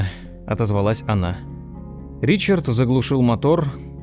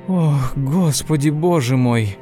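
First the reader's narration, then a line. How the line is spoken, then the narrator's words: Breathless exhale. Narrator (Russian): выдохнула она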